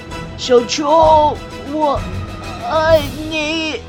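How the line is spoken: Shouting. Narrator (Chinese): 最后喊着

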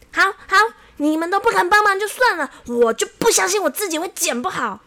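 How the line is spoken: Angry and loud. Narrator (Chinese): 这小王啊，非常的生气，立刻很大声的说

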